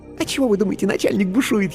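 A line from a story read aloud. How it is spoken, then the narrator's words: Giggling whisper. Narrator (Russian): хихикнув, шепнула она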